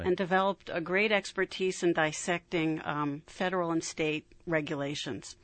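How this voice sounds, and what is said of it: New York accent. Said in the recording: “you'll probably be able to tell from my accent that I'm not from here originally. I'm from New York”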